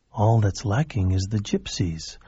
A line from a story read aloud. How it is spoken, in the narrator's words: a voice inside him whispered